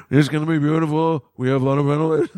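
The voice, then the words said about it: Imitates another person's voice. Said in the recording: “my Trump impersonation, which is awful, is more like the kid from Ferris Bueller's Day Off”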